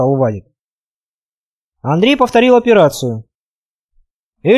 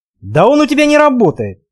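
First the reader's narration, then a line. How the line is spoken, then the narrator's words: Exclaimed. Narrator (Russian): воскликнул Вадик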